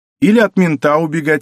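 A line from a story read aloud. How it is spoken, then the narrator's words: Said, then laughing. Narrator (Russian): сказал Сенечка и засмеялся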